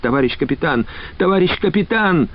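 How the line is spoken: Frantic exclamation, young woman. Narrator (Russian): Воскликнула девушка обезумевшим голосом

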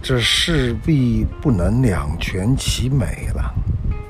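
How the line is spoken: Sighing. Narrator (Chinese): 龙女也叹息地说

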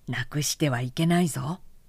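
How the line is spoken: Plain. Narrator (Japanese): と言って

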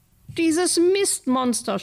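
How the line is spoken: Scream. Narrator (German): schrie Lotta

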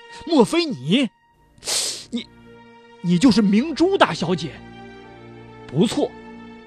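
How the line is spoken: Startled cry. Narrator (Chinese): 李宏达不由是惊叫起来

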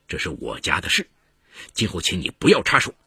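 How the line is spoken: Cold, resentful reply. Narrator (Chinese): 王国军…极端不满…冷冷的回了一句

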